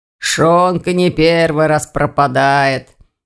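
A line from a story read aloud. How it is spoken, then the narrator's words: Hoarse bass voice. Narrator (Russian): хрипло пробасил староста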